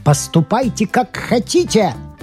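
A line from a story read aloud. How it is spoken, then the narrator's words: Shouting. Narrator (Russian): кричал Фланери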